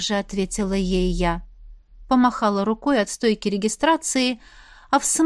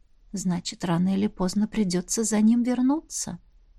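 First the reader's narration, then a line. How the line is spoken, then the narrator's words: Whispering inner voice. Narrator (Russian): шепнул внутренний голос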